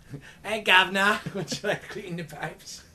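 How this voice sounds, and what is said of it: Poor attempted British accent. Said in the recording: “I can't do the British accent. ... It's fun luring you into accents”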